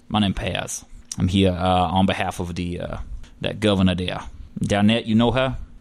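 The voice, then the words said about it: Put-on Cajun woman's voice. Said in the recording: “She's Cajun, right? ... That's a lady. It just sounds like me doing a voice.”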